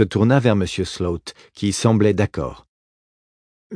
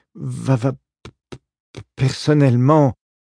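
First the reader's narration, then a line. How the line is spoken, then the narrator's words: Stammering. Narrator (French): se mit à bredouiller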